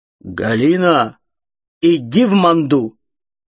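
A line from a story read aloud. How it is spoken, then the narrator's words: Loud low proclaiming voice. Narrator (Russian): Громким низким голосом Герольда Катерина возгласила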